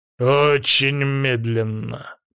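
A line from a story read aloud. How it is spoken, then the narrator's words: Grumbling. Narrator (Russian): проворчал Аким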